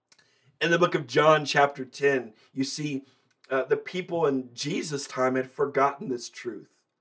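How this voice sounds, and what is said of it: Strained, failing voice with pauses. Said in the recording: “If you keep hearing me pause, it's because I'm literally in the midst of losing my voice.”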